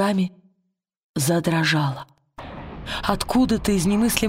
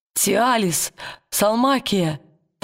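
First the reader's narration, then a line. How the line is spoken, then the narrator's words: Trembling call. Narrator (Russian): дрожащим голосом позвал он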